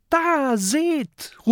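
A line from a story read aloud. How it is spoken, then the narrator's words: Called out. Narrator (German): ruft Mathilda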